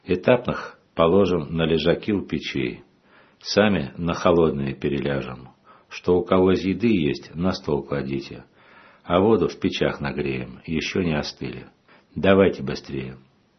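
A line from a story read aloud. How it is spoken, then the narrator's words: Calm, priest. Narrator (Russian): Отец Арсений спокойно сказал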